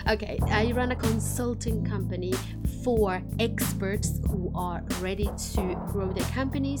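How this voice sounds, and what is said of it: Finnish-Swedish accented English. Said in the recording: “my funny accent is a combination of Finnish and Swedish”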